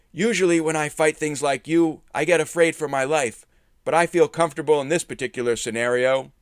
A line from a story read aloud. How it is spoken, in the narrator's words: shouting